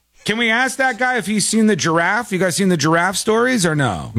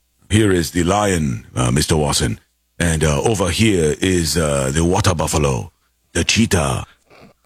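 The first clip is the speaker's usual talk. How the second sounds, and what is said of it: Put-on African accent. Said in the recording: “your French is not as good as your African ... My African accent has been the talk of the town ... it's fairly accurate”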